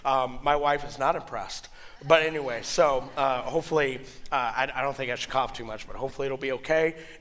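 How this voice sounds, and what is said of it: Husky voice from a cold. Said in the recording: “my voice is getting better. I had a cold, kind of a head flu last weekend ... I'm going to sound like this, very sultry and everything. So this is not what I usually sound like.”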